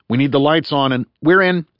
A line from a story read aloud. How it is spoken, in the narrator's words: he said quickly